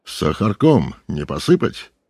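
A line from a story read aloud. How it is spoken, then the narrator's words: Fairly serious tone. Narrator (Russian): неизменно произносил достаточно серьезным тоном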